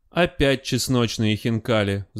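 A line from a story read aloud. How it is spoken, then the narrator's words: Sighing. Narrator (Russian): вздохнула бабушка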